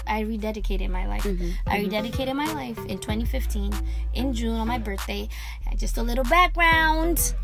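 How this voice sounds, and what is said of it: Kenyan accent. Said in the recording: “I'm Kenyan. That's why they be making fun of my accent all the time.”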